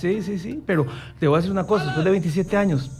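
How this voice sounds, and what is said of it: Costa Rican Spanish accent. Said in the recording (Spanish): “Nunca se me quitó el acento tico”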